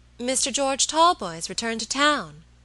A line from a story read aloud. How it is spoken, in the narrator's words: exclaimed my lady